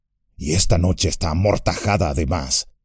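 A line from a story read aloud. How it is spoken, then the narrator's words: Murmuring. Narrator (Spanish): murmuró Gimli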